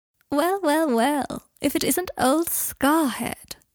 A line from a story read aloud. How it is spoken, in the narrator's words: said a posh, drawling voice